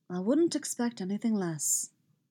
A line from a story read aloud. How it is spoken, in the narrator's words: he murmurs